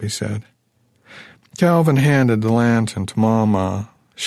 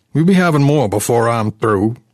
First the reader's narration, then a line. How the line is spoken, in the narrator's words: Jim yelled